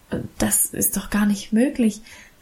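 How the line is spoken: Overwhelmed stammering. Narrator (German): stammelte ich überwältigt

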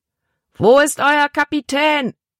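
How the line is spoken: Big man's roar. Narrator (German): brüllte der große Mann

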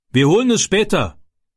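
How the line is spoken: Called out. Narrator (German): rief er

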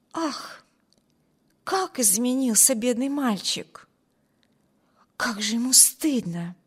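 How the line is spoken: Whisper. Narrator (Russian): прошептала Алис своему спутнику

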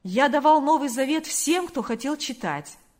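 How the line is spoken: Clear ringing voice. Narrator (Russian): произнес он чистым звонким голосом

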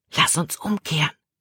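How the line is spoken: Whisper. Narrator (German): flüsterte Caleb

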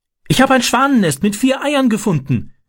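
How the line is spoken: Called out. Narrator (German): rief

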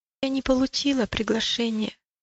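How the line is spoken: Timid. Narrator (Russian): робко проговорила милость

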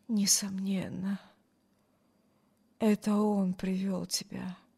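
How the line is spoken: Muttering. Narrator (Russian): пробормотал Брюс

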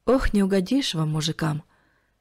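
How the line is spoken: Sighing old woman. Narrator (Russian): вздохнула пожилая женщина

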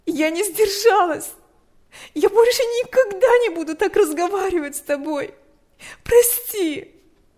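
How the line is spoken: Sobbing. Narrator (Russian): Она разрыдалась

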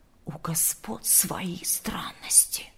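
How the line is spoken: Group whispering. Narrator (Russian): шептались слуги

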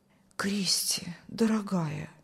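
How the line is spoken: Whispering. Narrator (Russian): шептал пастор

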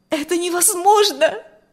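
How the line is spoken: Startled cry. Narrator (Russian): вскрикнула Маргита

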